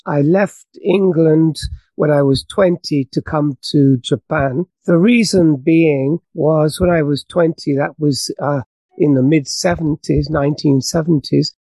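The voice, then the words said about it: British English accent. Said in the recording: “as you can tell from my accent, I'm British”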